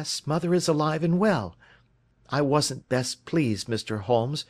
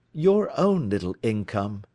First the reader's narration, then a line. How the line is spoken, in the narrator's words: he asked